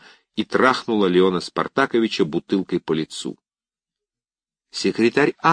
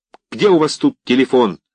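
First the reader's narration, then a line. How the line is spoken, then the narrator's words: Shouting. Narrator (Russian): кричала Ива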